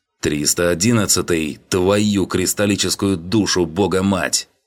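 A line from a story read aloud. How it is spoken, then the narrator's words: Furious bark. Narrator (Russian): Гаркнул я с яростью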